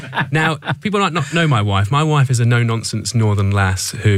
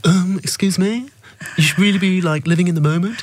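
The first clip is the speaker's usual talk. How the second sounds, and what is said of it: Imitates another person's voice. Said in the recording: “You can tell what I feel about her from my impression of this one.”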